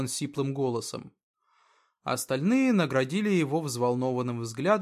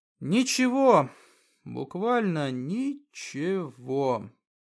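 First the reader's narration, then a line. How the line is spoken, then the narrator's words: Through gritted teeth. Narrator (Russian): процедил он сквозь зубы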